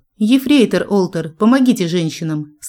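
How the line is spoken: Stern command. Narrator (Russian): строго приказала я

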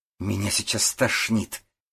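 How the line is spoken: Through gritted teeth. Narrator (Russian): процедила Ставицкая

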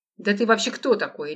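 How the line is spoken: Sharp interruption. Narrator (Russian): резко перебил его маркист

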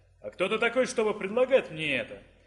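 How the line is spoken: Mocking question. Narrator (Russian): Насмешливо поинтересовался Фес

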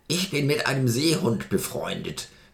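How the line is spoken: Grunting geyser. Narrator (German): grunzte der Geysir

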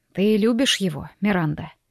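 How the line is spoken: Quiet question. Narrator (Russian): тихо спросил отец

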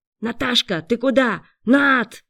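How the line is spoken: Frightened shout. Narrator (Russian): испуганно закричал парень

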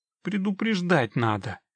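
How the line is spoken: Grumbling. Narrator (Russian): проворчала Синтия

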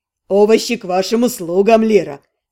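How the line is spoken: Snorting. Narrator (Russian): Катар фыркнул

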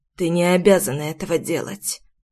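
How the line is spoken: Dull, muffled reply. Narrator (Russian): глухо ответил отец

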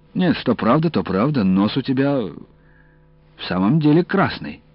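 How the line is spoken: Plain. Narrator (Russian): сказал я

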